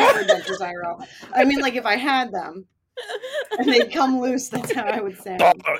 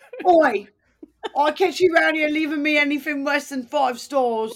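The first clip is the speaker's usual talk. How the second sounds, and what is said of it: Bad put-on British accent. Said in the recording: “whenever I try to do this accent, I don't know why I sound like my dentures came loose ... a bad British accent”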